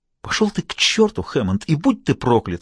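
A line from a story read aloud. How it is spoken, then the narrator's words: Exclaiming. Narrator (Russian): воскликнула она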